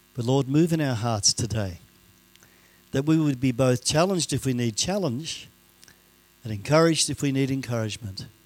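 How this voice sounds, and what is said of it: Mixed Canadian, Scottish, Australian accent. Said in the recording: “my accent because my father is Canadian, my mother is Scottish, right? And I was raised in Australia. So my accent's going to go all over the place ... so I'm a little bit muddled”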